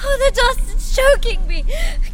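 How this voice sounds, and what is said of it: Panicked screaming. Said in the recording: “Stop screaming, you! How can you expect to be able to breathe if you're screaming all the breath out of your body?”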